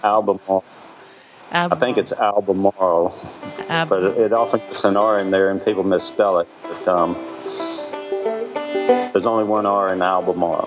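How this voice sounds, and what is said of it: Southern American accent. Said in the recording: “my southern accent ... I love that southern accent.”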